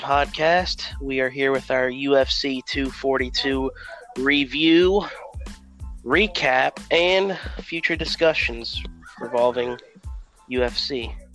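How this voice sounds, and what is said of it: Voice sounds off from a cold. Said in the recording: “if my voice sounds weird today, I apologize. I got like a little cold issue going on ... But the yelling made it worse”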